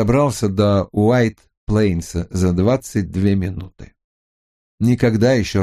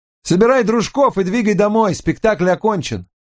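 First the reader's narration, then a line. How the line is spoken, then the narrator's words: Shouted. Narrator (Russian): крикнул Даркину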